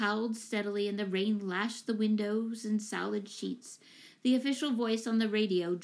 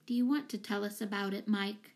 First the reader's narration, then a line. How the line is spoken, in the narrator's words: she asked gently